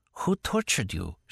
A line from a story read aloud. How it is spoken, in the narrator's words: asked in a whisper